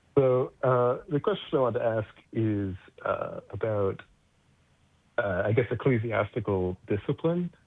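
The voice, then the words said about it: American accent. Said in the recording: “a disappointing American accent here. I'm from Connecticut”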